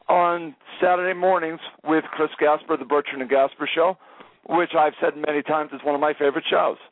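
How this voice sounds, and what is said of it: Strained, fading voice. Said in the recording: “Sorry, I'm starting to lose my voice a little bit. ... I'm trying to conserve my voice”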